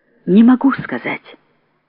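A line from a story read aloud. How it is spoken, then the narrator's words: Quiet. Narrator (Russian): тихо сказала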